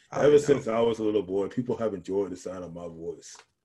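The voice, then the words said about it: Lowered voice imitating another person. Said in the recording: “I'm only good at Morgan Freeman ... It's like your voice an octave. It's not that hard.”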